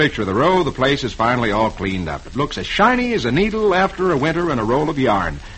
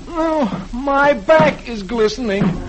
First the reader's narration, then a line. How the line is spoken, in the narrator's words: Dagwood, who's beginning to get tired, groans